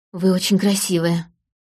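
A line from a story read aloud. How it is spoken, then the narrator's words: Breathless. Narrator (Russian): выдохнул он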